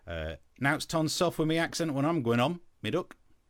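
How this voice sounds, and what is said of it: Broad East Midlands accent. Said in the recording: “where I'm from, northern parts of Nottinghamshire ... I have prepared a statement for my fellow East Midlanders ... I know a lot of people would struggle to understand that”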